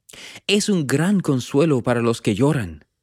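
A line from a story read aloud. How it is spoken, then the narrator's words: Plain. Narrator (Spanish): dijo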